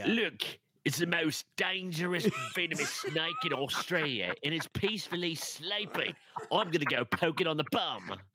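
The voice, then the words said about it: Attempted British accent sounding Australian. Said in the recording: “no matter how hard I try to do a good British accent, it always ends up saying like Australian”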